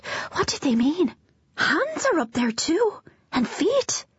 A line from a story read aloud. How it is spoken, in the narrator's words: Amelia gasped